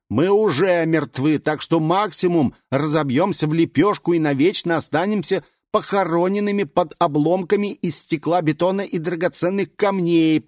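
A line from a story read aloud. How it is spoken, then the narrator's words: Shouted reply. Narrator (Russian): прокричал кто-то в ответ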